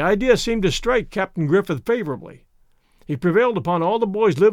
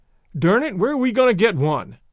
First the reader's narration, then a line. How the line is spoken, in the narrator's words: Lane blurted out